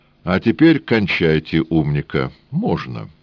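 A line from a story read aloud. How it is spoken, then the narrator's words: Calm. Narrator (Russian): спокойно сказал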